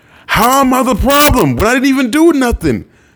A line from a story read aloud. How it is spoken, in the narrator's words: Chiron would shriek